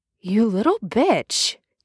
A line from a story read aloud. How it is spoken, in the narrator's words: he says, rough at first, but then he's laughing a little